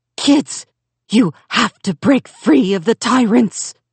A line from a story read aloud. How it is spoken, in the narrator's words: she rasped in ancient Chinese